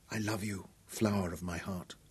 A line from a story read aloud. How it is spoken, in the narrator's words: Dorian whispered helplessly